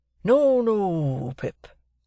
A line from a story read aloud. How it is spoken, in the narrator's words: said Joe, in a comfortable tone